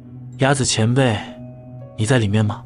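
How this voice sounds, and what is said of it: Quiet, hushed call. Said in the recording (Chinese): “小声的喊了一下”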